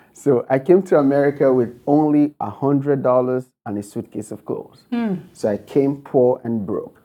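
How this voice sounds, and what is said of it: Nigerian accent. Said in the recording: “I was born and raised in Nigeria. You can tell from my accent.”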